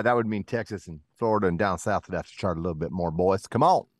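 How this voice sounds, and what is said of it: Put-on accent. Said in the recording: “I don't know why I'm talking with this accent.”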